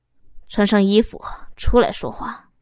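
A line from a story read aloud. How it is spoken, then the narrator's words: Cold husband. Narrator (Chinese): 老公冷冷的说着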